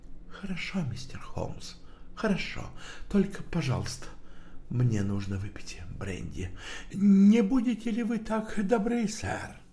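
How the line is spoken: Nervous quiet speech. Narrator (Russian): Он судорожно сглотнул и тихо сказал

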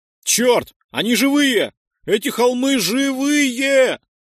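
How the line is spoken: Shout from below. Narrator (Russian): прокричал кто-то внизу

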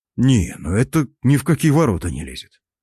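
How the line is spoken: Mutter. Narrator (Russian): пробормотал я

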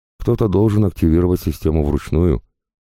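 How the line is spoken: Calm reply. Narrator (Russian): спокойно ответил Заварзин

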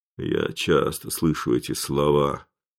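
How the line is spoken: Gloomy speech. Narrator (Russian): мрачно проговорил Ботандо

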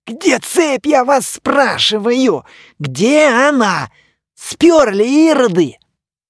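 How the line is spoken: Furious yelling. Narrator (Russian): Мумий вне себя от бешенства орал на гномов

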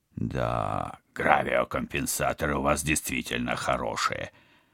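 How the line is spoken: Mutter. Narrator (Russian): пробормотал Вадим

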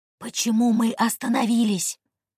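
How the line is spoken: Very quiet question. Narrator (Russian): очень тихо спросил пассажир

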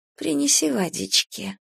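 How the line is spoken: Sleepy tired whisper. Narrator (Russian): когда оба наконец утомились, сонно шепнула Сане на ухо

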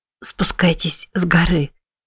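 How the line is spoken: Hoarse rasp with coughing. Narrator (Russian): прохрипела Мэтти и снова закашлялась

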